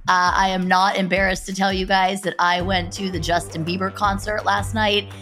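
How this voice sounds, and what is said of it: Voice sounds strained and unusual. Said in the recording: “my voice sounds a little bit different today ... singing and yelling ... my voice is not what it normally is”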